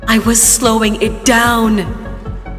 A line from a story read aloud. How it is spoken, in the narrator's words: he screamed